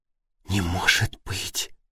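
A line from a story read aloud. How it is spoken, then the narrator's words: Whispered. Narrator (Russian): прошептала Надя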